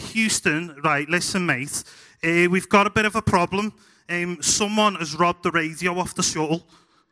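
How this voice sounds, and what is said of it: Scouse accent. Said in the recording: “nobody with a Scouse accent is ever going to be an astronaut”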